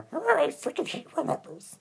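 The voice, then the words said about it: Poor growling Gollum impression. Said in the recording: “my growl. I could do my Gollum roar ... That was a horrible impersonation, ... I can't do Gollum on cue”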